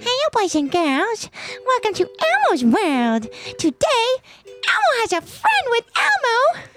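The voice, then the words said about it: Elmo character voice. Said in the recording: “my Elmo impression... do your Elmo impression... you sound like Elmo too”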